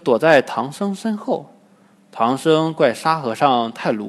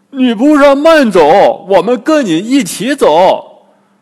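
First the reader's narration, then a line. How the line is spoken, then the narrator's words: Anxious loud shout. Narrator (Chinese): 八戒急了，大声对姑娘喊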